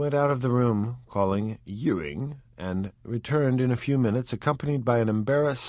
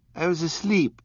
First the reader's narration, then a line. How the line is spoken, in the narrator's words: cried Mr